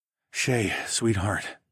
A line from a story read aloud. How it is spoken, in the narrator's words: I groaned